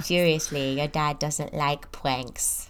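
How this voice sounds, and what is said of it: Good impression of a TV character. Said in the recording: “That's a very good impression. ... Professional Friends impersonator.”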